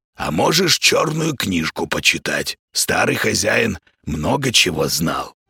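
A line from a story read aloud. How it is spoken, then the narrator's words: Hoarse voice from behind. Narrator (Russian): услышал за спиной хриплое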